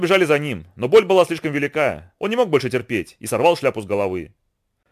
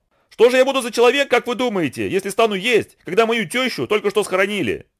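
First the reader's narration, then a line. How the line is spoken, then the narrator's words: Shouting. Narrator (Russian): А Ананси кричал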